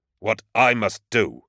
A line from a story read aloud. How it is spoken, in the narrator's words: Garrow snarled the words back at him, for a moment furious at the legionary's demands